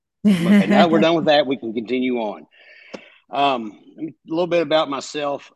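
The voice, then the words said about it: Kentucky Southern American accent. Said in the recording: “The accent, I'm from Kentucky.”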